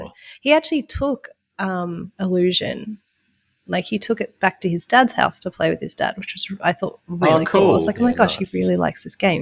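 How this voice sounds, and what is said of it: Sick-sounding voice. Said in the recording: “you can probably hear in my voice, I'm a little bit sick”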